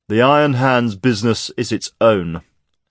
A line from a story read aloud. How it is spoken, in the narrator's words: said Hart sternly